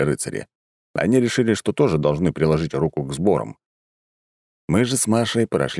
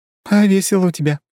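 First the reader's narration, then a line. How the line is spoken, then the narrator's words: Giggling. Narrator (Russian): хихикнула Маша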